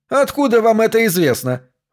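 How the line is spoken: Triumphant shout. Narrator (Russian): выкрикнул Смитбек, чтобы окончательно утвердиться в своем триумфе

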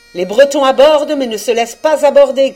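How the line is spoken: Shouting. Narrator (French): cria Thor et Pen

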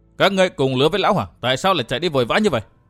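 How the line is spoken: Stunned sharp demand. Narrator (Vietnamese): Nàng liền lặng người quát hỏi

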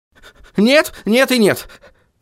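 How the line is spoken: Hurried speech. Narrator (Russian): торопливо произнес Гаспод

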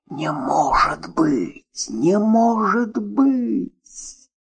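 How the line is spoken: Sobbing. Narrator (Russian): И разрыдался

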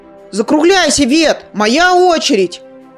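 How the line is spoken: Shouted. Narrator (Russian): выкрикнул Зар

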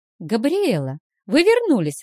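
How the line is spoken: Joyful exclamation. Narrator (Russian): воскликнула радостно Вилма

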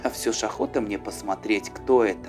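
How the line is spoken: Plain. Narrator (Russian): сказал Эспен

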